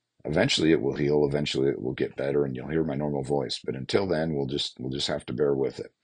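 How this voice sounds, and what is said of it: Raspy hoarse voice. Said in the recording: “my voice is still really raspy”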